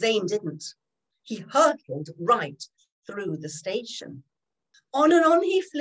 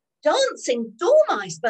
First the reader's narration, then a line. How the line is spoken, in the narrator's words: Bert exclaimed